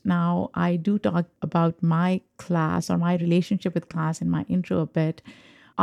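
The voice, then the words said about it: Pakistani English accent. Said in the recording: “I'm an immigrant. I grew up in Pakistan. I have an accent.”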